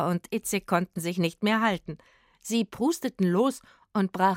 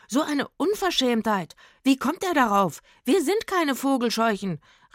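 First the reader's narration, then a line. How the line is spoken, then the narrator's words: Indignant call. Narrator (German): rief er dem Mann zu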